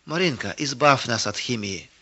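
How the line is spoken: Whispered by a boy. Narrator (Russian): шепнул высокий мальчик соседнего ряда

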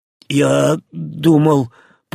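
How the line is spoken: Terrified rasp. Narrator (Russian): прохрипел Зильберт, не сводя с женщины полного животного ужаса взгляда

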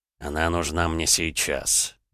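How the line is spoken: Sighing. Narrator (Russian): вздохнул Кирилл

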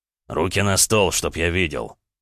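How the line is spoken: Rumbling bass. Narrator (Russian): Басом пророкотал Орлов

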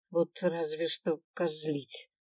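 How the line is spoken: Grumbled. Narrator (Russian): проворчал Свен

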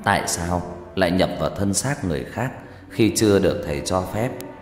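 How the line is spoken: Faint whisper, possessed woman's voice. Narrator (Vietnamese): Cậu tôi co giật dữ dội, rồi cậu bắt đầu thều thào nói bằng một giọng nữ khác mà từ xa tôi chỉ nghe loáng thoáng

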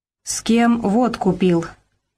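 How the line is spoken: Tense, hushed voice. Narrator (Russian): Напряженным и приглушенным голосом спрашивала мать

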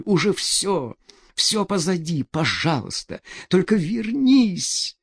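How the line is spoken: Moaning. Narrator (Russian): она застонала, не очень понимая, кому обращен зов ее

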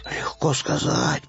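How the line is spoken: Muttering. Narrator (Russian): пробормотал Пэтсон

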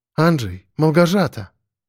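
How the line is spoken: Quiet call after sigh. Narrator (Russian): Лена тяжело вздохнула и тихо позвала

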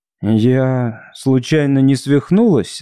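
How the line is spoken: Uncertain question. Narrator (Russian): спросила неуверенно

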